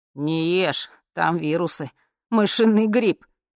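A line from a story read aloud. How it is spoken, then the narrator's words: Warning. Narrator (Russian): предупредил С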